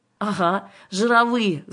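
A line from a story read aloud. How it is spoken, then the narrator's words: Laughing. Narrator (Russian): засмеялась Кира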